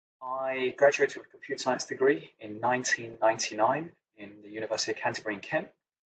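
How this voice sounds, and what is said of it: English accent. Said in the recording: “originally from England, as you can probably tell by the accent”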